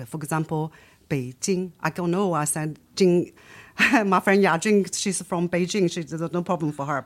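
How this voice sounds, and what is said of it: Nanjing Chinese accent, L/N merged. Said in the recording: “I'm from Nanjing, where people cannot differentiate between L and N. And also, I don't know when I could put the G in the end ... this is my local accent, like dialect problem”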